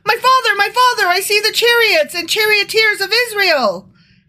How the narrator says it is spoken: cried out

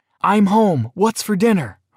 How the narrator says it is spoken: shouted

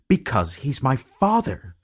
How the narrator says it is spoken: she had cried

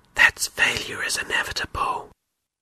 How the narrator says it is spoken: One of the bad beliefs said in a whisper

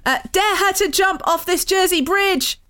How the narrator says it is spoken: Vic screamed

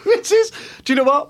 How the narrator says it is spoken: I laughed

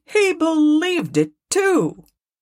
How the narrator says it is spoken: cried Scrooge's nephew

